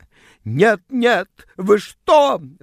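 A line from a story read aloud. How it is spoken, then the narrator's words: Shrieking. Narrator (Russian): взвизгнула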